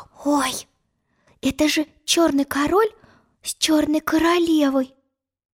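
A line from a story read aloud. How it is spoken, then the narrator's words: Whisper. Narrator (Russian): прошептала она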